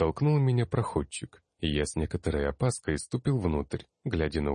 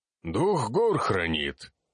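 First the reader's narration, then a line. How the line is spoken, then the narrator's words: Confident reply. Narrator (Russian): Уверенно ответил тот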